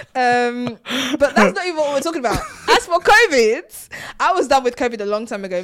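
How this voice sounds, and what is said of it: Nigerian accent. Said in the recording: “Why are you speaking in a Nigerian accent? ... But that's not how you talk. ... When people get passionate, they just switch into a different accent.”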